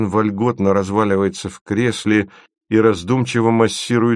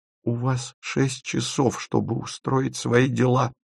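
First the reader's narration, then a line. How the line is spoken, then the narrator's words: Tearful voice. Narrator (Russian): роняет она плачущим голосом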